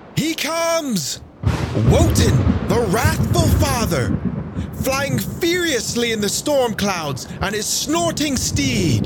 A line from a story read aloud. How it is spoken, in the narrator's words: One of the Valkyries called out